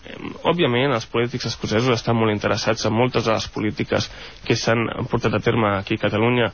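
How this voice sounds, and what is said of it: Catalan spoken with Scottish accent. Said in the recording (Catalan): “T'ha quedat l'accent, eh? Parles en català amb accent escocès.”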